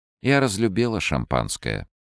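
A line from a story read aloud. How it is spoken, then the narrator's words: Plain. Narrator (Russian): сказала Ольга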